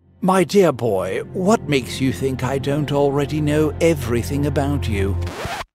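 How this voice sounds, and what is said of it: Put-on British movie-villain accent. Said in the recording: “Yeah, the British accent's mine. I was taking creative license. I just thought it sounded more kind of like a movie villain”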